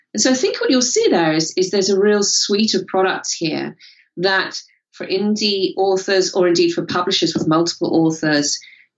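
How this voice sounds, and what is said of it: British accent. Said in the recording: “in the UK, you can hear from my accent”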